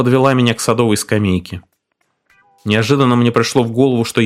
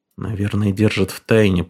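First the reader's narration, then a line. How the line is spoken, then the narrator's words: Muttering. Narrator (Russian): пробормотал я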